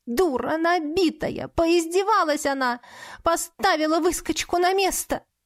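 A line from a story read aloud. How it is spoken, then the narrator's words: Sobbing hard. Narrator (Russian): так сильно рыдала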